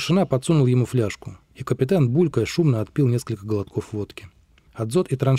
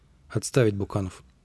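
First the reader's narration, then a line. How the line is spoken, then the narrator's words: Dazed mutter. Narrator (Russian): Гладков, приходя в себя, пробормотал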